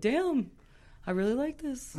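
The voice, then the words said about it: Imitates another person's voice. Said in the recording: “I love her Creedon impression. It's so good.”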